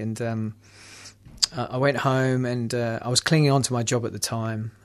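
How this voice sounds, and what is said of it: London English accent. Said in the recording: “I'm from London, if you don't understand my accent”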